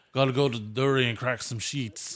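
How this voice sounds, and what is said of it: Attempted Australian accent sounding Russian. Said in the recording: “That was Russian. ... I'm just not very good at accents.”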